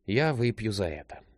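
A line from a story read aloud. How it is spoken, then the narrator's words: Gloomy reply. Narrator (Russian): мрачно откликнулся Джек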